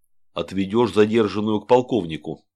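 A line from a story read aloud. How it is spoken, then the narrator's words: Plain. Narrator (Russian): сказал он Алексею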